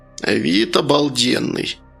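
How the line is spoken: Grandmother's grumble. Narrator (Russian): пробурчала бабушка

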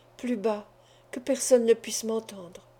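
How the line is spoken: Murmured. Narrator (French): murmura Madame Torontal

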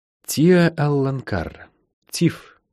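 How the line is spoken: Quiet. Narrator (Russian): негромко сказала Лайн

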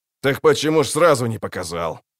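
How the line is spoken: Grumbling. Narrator (Russian): проворчал охотник

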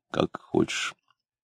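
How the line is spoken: Flustered mumble. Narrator (Russian): Это настолько смутило Клима, что он пробормотал растерянно

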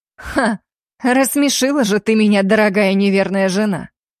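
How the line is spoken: Man's angry snort. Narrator (Russian): Зло фыркнул мужчина

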